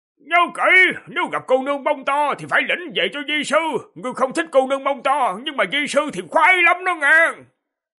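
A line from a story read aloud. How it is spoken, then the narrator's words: Old man's hurried shout. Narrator (Vietnamese): ông lão vội hét to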